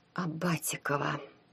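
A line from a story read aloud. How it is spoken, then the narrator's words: Low voice. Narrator (Russian): вполголоса произнесла Таня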